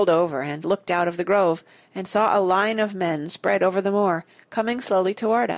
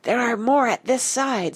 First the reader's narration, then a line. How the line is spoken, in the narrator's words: said Nigel, in a piercing whisper, from the far edge of the birches